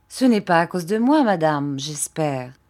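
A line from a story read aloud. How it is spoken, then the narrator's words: Plain. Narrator (French): dit Monsieur Peggotty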